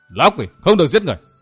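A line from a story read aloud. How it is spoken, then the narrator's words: Piercing scream. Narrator (Vietnamese): Bỗng có tiếng hét xé toạc bầu không gian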